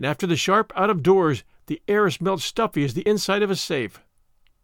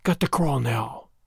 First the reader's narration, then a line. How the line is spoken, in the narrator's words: whispered